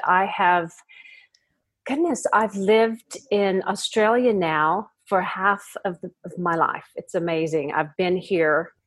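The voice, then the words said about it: American accent. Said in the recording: “I'm guessing you can hear an accent. I'm from America originally”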